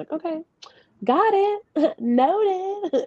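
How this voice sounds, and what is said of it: Put-on fake voice. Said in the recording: “my fake voice”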